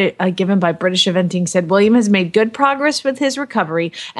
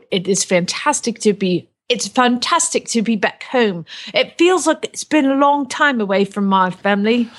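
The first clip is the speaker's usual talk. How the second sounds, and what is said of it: Put-on Cockney accent. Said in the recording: “Cockney accent”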